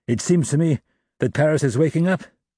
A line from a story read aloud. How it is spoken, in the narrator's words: Enjolras, still on the watch, suddenly cried